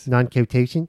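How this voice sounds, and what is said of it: Put-on Philadelphia accent. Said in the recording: “say that in the Philly accent”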